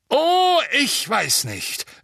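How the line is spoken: Booming voice. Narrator (German): sagte Madame Bones mit ihrer dröhnenden Stimme

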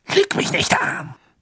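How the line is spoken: Hissing. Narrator (German): zischte Snape

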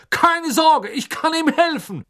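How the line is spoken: Calling out. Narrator (German): rief er

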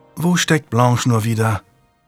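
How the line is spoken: Sighing question. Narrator (German): fragte Lady Juliana seufzend

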